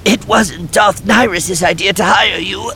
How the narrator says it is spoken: he explained, his voice still raw and rough from the choking

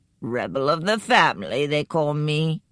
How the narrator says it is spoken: said in his growly voice

